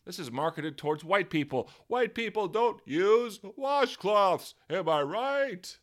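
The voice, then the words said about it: Jerry Seinfeld doing Def Jam comedy. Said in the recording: “Was that Jerry Seinfeld doing Def Jam comedy? I don't know what the fuck that impression was.”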